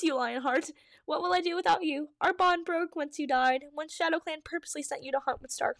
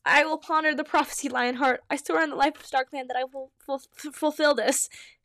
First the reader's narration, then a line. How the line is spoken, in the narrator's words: said, her voice shaking